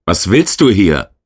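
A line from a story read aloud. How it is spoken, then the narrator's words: Screamed. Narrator (German): schrie der Neuankömmling nur ein Wort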